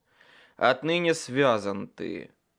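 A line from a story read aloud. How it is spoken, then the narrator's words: Growled. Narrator (Russian): прорычал я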